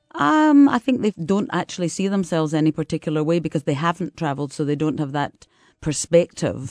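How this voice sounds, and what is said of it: Deep Scottish accent. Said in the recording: “I've got this Scottish accent, deep accent,”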